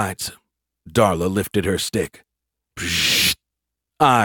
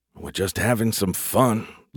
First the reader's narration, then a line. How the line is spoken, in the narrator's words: Larry grumbled